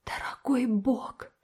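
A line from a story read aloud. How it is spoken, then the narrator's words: Whispered. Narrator (Russian): прошептала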